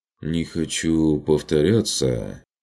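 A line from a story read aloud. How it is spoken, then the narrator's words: Uncertain. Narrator (Russian): неуверенно произнес Курт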